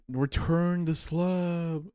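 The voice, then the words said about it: Poor impression of a cartoon ghost. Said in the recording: “that was a horrible impression”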